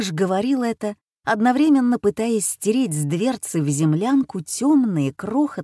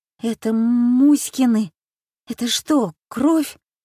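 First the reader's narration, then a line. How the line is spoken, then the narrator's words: Trembling question. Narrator (Russian): дрожащим голосом спросил Ванька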